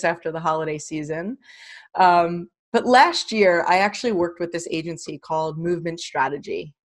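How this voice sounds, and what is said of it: Hoarse, strained voice. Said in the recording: “Pardon my voice, I'm just getting over laryngitis”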